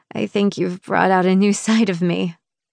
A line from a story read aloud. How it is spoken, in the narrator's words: I chuckle, slightly embarrassed